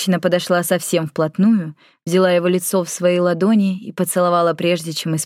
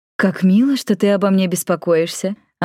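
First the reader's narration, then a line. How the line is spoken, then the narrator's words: Giggling. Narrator (Russian): Она хихикнула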